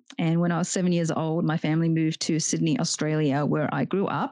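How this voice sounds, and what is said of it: Australian accent. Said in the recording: “You can probably hear this Australian accent ... I do sound like an Australian.”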